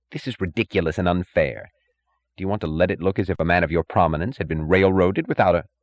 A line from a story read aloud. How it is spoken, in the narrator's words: The third and youngest judge snapped impatiently